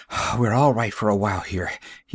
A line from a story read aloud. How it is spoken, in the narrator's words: he wheezed